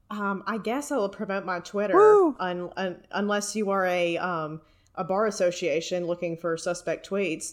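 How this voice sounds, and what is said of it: Speaker's own noticeable accent. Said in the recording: “my accent, you know, makes it a little bit difficult”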